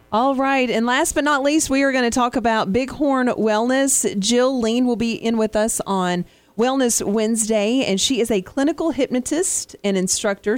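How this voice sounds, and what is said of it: Strong Southern American accent. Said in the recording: “I do have a very Southern accent.”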